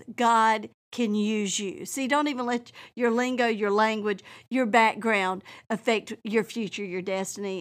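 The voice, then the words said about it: Southern US accent. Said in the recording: “is that her real accent? Well, yes, it is. And I don't even know I have an accent ... I went to swamp school ... every time I come to South Georgia, I feel like my accent comes out”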